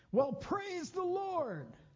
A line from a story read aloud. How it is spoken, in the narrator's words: I shouted